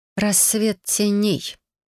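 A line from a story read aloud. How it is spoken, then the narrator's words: Quiet. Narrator (Russian): негромко произнесла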